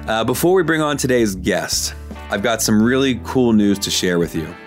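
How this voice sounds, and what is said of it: Sick-sounding, strained voice. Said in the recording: “I am really under the weather today, so I apologize for my voice.”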